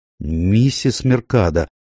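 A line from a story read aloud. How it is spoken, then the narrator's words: Timid remark. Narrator (Russian): робко заметил я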